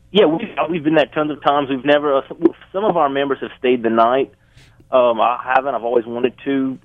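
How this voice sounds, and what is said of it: Thick accent, hard to understand. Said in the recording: “In case you can't understand him because of the accent”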